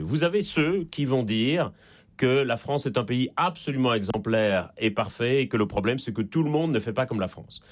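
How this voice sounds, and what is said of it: Slight Belgian French accent. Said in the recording (French): “ça s'entend un peu d'ailleurs à mon accent. Je suis en Belgique et je ne suis pas né en France”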